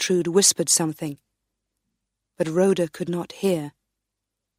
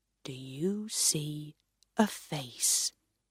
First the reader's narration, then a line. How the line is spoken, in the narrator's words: the wise man asked quietly